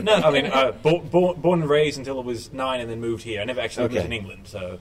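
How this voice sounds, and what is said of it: Mixed British-Australian accent. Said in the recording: “you don't sound like you're from around here ... Originally, I'm from Australia. My parents are from England ... I've got a kind of mixed accent, mainly British-Australian”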